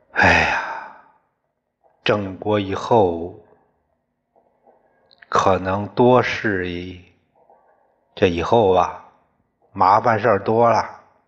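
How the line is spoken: Long sigh. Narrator (Chinese): 长叹一声

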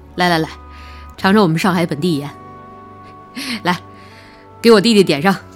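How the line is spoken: Muttering with silly laugh. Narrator (Chinese): 他嘿嘿的傻笑，嘴里嘀咕着

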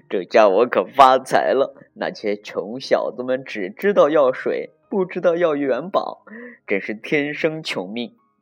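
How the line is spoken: Laughing gleefully. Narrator (Chinese): 笑得嘴都合不拢了，说

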